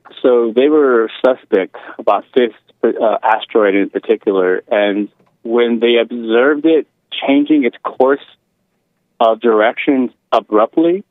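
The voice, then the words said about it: Speaks with a noticeable accent. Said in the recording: “my accent... I like that accent.”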